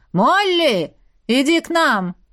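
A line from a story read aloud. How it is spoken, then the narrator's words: Loud, menacing. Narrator (Russian): прозвучавшее столь громко и столь грозно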